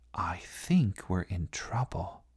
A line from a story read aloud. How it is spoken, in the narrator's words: whispered Katy